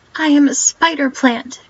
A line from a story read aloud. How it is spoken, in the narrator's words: it cried indignantly